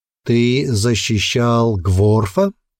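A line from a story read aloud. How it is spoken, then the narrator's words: Slow repetition. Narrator (Russian): медленно повторил хранитель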